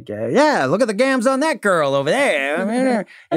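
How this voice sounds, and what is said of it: Old-time 1920s radio broadcaster voice. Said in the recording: “when you hear the broadcaster, that 1920s speak”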